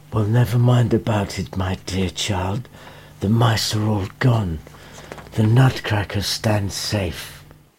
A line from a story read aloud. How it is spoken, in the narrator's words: the doctor said softly